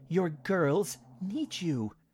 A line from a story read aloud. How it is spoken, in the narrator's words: Marjorie pleaded